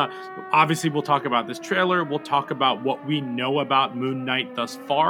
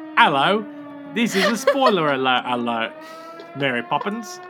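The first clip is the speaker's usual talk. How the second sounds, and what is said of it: Put-on Cockney accent. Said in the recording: “Let's hear this in a Cockney accent”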